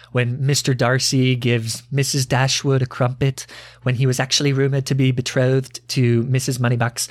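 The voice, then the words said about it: Good put-on accent. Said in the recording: “That's a really good accent.”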